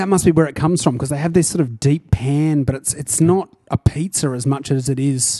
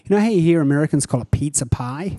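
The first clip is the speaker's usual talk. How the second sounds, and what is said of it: Bad attempt at American accent. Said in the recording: “That wasn't a Chicago accent. That was terrible. ... I liked whatever accent that was.”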